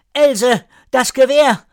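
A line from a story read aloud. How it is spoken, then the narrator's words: Calling out. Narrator (German): Oda ... rief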